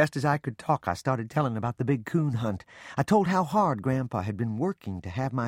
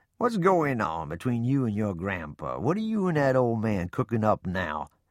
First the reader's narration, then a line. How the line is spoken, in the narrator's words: Papa chuckled and asked